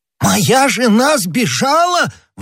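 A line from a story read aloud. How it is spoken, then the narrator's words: Exclaiming. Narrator (Russian): воскликнул Бонасье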